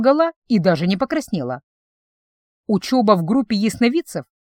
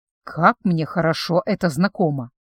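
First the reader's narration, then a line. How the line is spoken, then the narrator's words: Barely audible whisper. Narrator (Russian): чуть слышно прошептала профессор Кит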